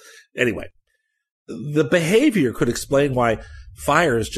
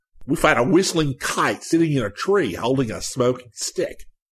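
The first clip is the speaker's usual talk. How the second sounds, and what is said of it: Poor put-on Australian accent. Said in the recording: “forgive me for the terrible Australian accent. ... Oh, that was awful.”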